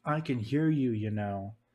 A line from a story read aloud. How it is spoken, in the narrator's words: Anakin called out with a cross face